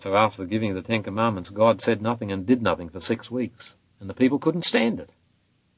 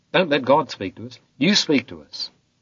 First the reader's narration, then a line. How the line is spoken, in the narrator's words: the people believed till they cried out